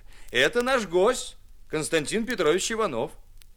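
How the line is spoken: Cheerful shout. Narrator (Russian): Муж крикнул ей весело

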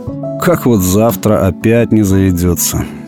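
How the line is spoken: Tired, son speaking. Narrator (Russian): устало молвил сын

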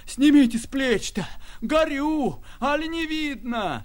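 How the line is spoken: Hoarse, coughing shout. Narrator (Russian): Хрипя, кашляя, кричала она

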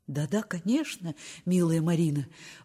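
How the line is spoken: Agitated, earnest babbling. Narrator (Russian): взволнованно и убежденно залепетала Аля

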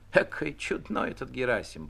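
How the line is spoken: Squeaky woman's voice. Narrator (Russian): пропищала толстая прачка

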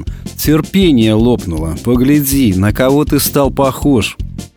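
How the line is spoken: Sad. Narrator (Russian): Печально ответил

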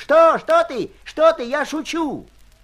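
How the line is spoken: Shout. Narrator (Russian): он крикнул

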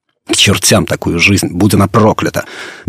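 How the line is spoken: Hopeless muttering. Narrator (Russian): безнадежно бормотал он

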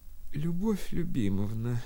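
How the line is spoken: Quiet, weak, feigned suffering. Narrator (Russian): начала она тихим и слабым голосом, она иногда любила прикинуться загнанной и сиротливой страдалицей

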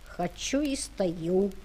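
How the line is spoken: Plain. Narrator (Russian): сказал Ваня

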